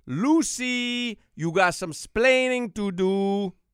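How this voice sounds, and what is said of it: Heavy Cuban accent impression. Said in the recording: “he was a heavy Cuban accent”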